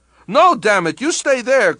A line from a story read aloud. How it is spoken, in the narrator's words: cried Mishnov in alarm